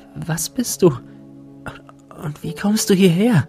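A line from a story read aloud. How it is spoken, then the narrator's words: Breathless question. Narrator (German): fragte sie atemlos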